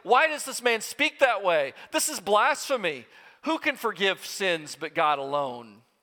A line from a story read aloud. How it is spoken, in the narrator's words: they exclaim